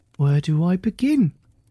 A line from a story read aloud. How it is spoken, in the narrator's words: he exclaimed with glee